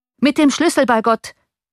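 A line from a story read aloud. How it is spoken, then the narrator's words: Coachman shouting. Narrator (German): rief der Kutscher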